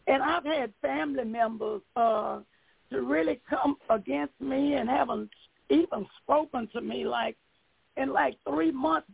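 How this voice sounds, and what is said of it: Hoarse voice. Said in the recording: “my voice is really hoarse.”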